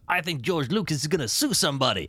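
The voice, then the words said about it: Bad imitation of another person's voice. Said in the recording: “doing a horrendously bad impression of Chris Rock”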